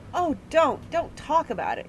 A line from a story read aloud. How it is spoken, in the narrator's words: pleaded Rosie